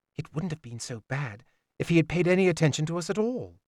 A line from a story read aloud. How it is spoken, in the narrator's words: Serene whispered back